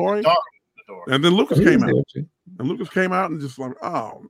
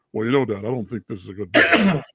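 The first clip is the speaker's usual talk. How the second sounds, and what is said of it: Put-on deep voice. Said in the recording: “all deep voice.”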